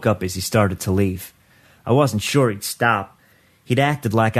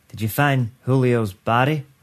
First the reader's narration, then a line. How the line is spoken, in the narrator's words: I asked